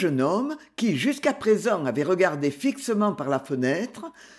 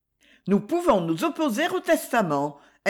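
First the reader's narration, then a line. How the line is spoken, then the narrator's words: Icy interjection. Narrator (French): intervint Madame la Marquise d'un ton glacial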